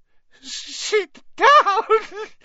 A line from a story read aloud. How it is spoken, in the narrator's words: he wailed